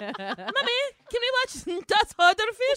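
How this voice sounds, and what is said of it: Put-on German accent. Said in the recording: “That's my German. That was my German accent. ... No, really, that's pretty good.”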